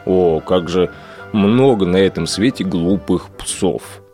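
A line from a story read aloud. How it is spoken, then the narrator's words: Sighing. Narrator (Russian): Вздохнув, проговорил пес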